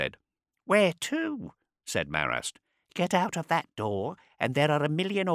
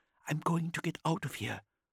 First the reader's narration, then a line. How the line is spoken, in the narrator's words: whispered Haas